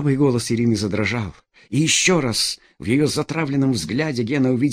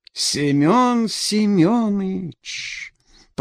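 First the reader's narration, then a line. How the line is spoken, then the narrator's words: Drawn out, cheerful. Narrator (Russian): Протянула она весело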